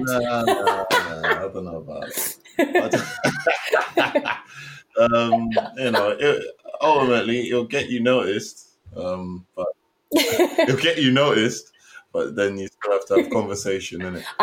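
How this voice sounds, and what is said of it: English accent. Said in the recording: “English accent. Everyone sort of loves the English accent in the States.”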